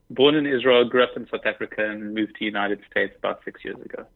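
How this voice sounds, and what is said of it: South African accent sounding British. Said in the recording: “doesn't sound like he's from New York because he's from London, right? ... I'm from South Africa ... I love your accent. and to me, it sounds British.”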